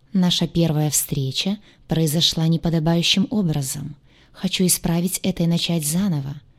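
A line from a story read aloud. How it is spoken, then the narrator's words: Soft. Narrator (Russian): мягко произнес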